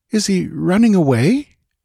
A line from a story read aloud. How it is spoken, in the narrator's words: inquired Valeria uneasily